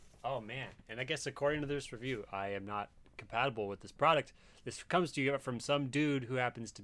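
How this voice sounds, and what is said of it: Usual voice. Nothing is said of it.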